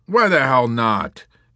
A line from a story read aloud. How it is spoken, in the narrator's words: Yossarian snarled, arguing all the more vehemently because he suspected he was wrong